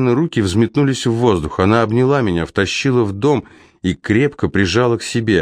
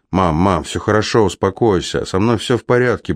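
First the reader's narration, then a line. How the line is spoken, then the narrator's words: Confused, distraught mumbling. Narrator (Russian): бормотал, толком не зная, что сказать, словно бы потерявший рассудок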